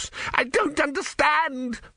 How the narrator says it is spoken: screamed Vorbis

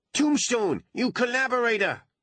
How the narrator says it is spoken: howled one of the remaining dwarves

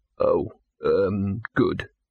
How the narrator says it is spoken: he said weakly

